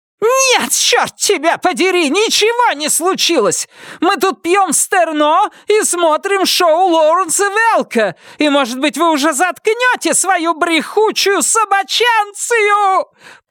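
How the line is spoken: Shrieking. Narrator (Russian): провизжала Вильма

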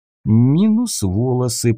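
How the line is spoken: Muttering. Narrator (Russian): пробормотал я

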